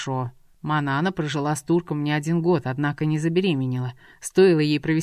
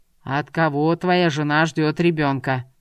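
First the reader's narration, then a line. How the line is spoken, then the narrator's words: Heavy weary sigh. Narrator (Russian): Тяжело вздохнув, Джумбер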